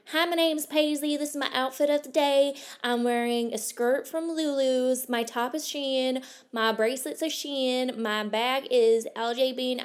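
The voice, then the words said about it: Put-on American accent. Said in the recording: “start talking in my best American accent”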